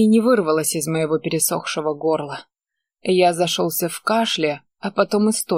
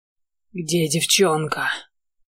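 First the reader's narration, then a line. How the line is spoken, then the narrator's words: Hoarse wheeze. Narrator (Russian): Просипел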